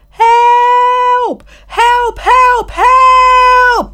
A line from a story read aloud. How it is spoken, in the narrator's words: the boy yelled